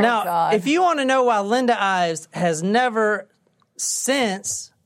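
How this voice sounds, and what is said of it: Usual voice. Nothing is said of it.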